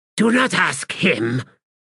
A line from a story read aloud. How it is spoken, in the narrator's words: Fayard snapped